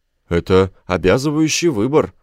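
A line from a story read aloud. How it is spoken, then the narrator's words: Exclaimed. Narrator (Russian): воскликнул Гроган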